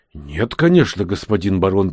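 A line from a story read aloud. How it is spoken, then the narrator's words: Hurried reassurance. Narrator (Russian): торопливо заверил его вождь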